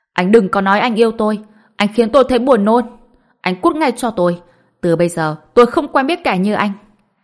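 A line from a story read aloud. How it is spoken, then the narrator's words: Disgusted shout. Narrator (Vietnamese): Lý Dài Dào trên mặt ngập tràn sự chán ghét, hét to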